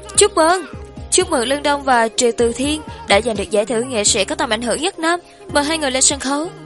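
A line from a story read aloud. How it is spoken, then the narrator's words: Loud female host. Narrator (Vietnamese): Một nữ MC khác lớn tiếng nói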